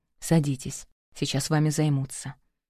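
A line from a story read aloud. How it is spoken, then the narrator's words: Whisper. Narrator (Russian): прошептал он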